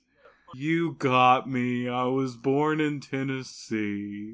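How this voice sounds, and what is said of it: Slow, sad-sounding southern accent. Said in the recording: “You just changed demeanor. All of a sudden you got sad and really dour ... you go develop a southern accent, but you talked slower ... When he gets sad, he talks slower.”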